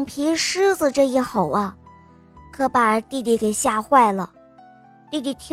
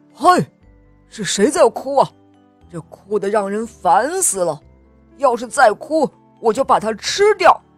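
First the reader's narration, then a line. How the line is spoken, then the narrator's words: Angry roar. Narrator (Chinese): 橡皮狮子生气了，他大吼了一声，说道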